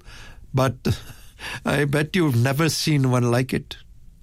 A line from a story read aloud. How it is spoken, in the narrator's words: Tomlinson with a chuckle